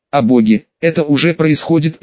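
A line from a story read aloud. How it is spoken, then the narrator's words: Inner grumble. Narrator (Russian): проворчал Джон в своей голове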